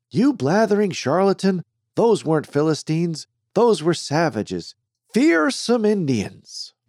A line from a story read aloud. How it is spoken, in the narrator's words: Krupp barked